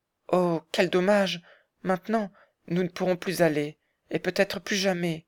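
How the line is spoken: Distressed exclamation. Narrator (French): s'écria Clara, d'un ton désolé

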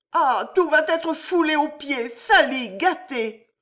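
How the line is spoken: Woman crying out. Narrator (French): s'écria la femme

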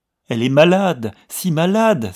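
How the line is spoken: Exclaiming. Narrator (French): s'écria-t-elle

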